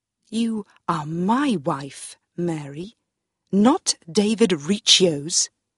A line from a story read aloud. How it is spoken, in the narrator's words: he said